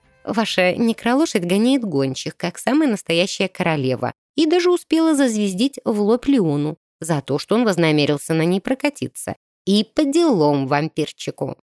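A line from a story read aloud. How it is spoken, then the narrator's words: Laughing. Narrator (Russian): Рассмеялась Режина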